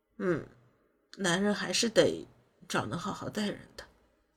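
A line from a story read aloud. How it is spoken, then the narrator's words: Dazed mumbling. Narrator (Chinese): 马秀江闻言神色有些恍惚，含糊不清的嘟囔道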